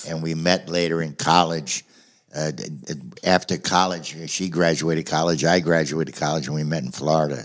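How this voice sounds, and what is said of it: New Jersey accent. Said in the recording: “as you can tell from my accent, up in New Jersey”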